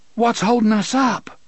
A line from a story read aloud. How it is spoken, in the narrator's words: Susanna cried